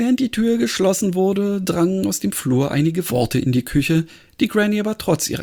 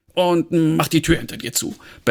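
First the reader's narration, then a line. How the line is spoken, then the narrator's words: Barking. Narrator (German): bellte Fumble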